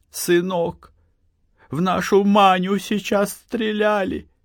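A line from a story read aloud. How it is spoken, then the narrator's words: Frightened, holding back sobs. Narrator (Russian): Анна проглотила подступившие к горлу рыдания и, сморщившись, как от мучительной боли, испуганно сказала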